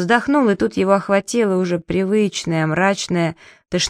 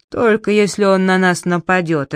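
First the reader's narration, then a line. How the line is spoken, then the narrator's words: Irritated. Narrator (Russian): раздраженно сказал Джеральд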